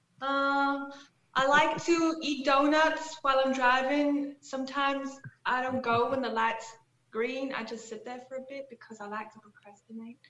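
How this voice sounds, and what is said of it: Put-on accent drifting toward Georgia. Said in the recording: “I don't really know if this is the right accent ... Now I think it's turning into another accent ... You went like brief Georgia there for a second”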